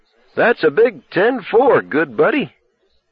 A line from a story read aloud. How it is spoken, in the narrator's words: Summoning up his own Christmas spirit, Jimmy cried